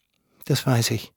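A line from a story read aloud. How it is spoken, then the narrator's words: Quiet speech. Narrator (German): sagte sie leise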